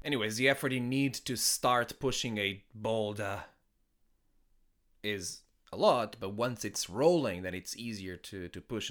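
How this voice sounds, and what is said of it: Non-native English accent. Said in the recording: “Maybe not with the right accent, with this weird accent that I have”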